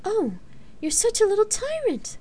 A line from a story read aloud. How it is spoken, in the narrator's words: the bard chuckled